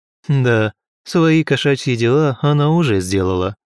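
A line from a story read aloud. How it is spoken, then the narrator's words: Hmph. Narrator (Russian): хмыкнул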